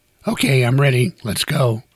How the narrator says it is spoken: she said

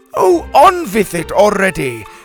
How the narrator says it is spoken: Helga shouted

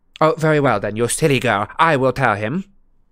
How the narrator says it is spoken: snapped Umbridge

